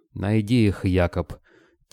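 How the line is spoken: Quiet, threatening prince. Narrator (Russian): тихо, но с угрозой в голосе произнес князь

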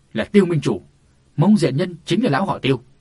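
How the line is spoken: Stunned exclamation. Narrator (Vietnamese): Viên Kỳ Hải bỗng bàng hoàng kêu lên

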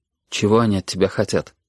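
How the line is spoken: Quiet question. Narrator (Russian): тихо спросил Костя

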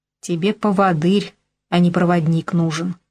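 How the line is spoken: Growled. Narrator (Russian): рыкнул он

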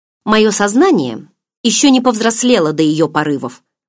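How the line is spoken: Grumbled mutter. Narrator (Russian): буркнула

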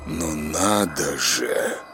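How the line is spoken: Sudden surprised exhale. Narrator (Russian): Выдохнул он вдруг от удивления

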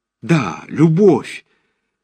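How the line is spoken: Jubilant exclamation. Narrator (Russian): воскликнул Назанский ликующим голосом

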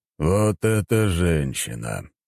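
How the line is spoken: Thoughtful. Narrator (Russian): задумчиво проговорил император

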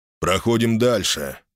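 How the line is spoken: Cold tone. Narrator (Russian): Аарон произнес холодным тоном

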